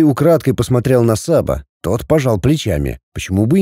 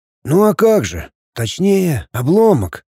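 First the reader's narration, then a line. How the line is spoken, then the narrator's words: Sighing. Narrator (Russian): Игнат вздохнул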